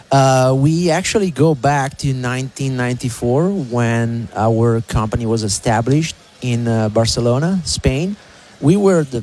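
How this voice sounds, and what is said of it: Noticeable foreign accent in English. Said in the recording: “Is that why you got an accent? ... The accent is not going to go anywhere.”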